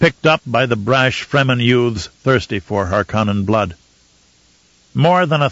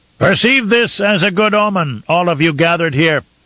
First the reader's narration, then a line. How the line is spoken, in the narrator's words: Einar shouted into the cavern